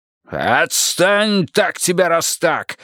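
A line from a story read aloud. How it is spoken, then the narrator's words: Barked. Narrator (Russian): рявкнул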